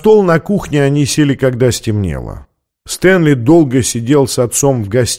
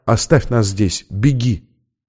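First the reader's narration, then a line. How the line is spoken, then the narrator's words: Whisper in ear. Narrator (Russian): Она шепнула ему на ухо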